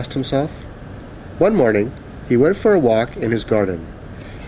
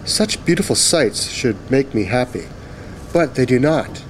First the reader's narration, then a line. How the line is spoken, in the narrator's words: he sighed